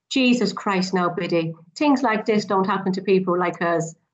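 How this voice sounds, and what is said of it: Put-on Irish accent. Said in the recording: “That's an Irish accent”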